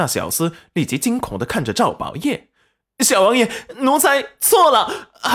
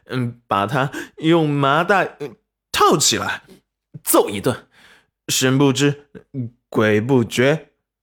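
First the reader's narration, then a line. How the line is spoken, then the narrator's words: Sly chuckle. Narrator (Chinese): 赵宝业嘿嘿一笑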